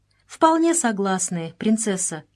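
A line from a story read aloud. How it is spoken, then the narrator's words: Plain. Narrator (Russian): ответила Мария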